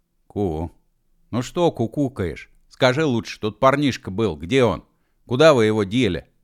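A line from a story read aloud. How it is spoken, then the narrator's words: Fierce question. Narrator (Russian): свирепо спросил Машков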